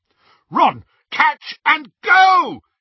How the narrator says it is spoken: he yelled

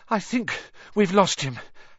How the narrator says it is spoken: Harry panted

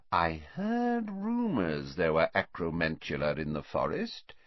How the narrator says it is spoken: said Slughorn softly

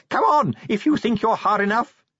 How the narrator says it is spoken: he screamed wildly

